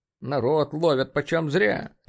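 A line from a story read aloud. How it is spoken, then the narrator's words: Grumble. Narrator (Russian): проворчал Рит Рамзи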